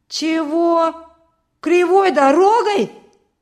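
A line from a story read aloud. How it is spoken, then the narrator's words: Loud indignation. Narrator (Russian): громко возмутился Петька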